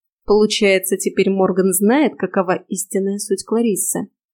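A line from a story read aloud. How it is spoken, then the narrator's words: Quiet musing to oneself. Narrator (Russian): Тихо, словно разговаривая сама с собой, обронила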